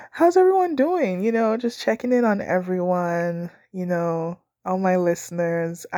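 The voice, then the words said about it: Phlegmy, congested voice. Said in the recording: “my voice is kind of messy ... I'm just, I don't know, phlegmy today”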